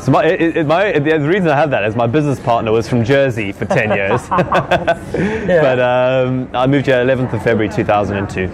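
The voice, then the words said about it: Slightly posh British accent. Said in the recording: “you got a little bit of a posh accent”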